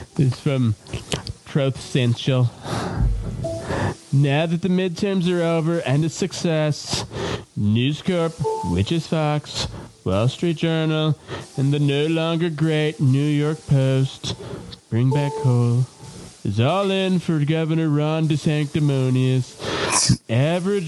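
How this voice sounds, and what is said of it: Imitates another person's voice. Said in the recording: “I'm gonna try to read this all in my Trump voice,”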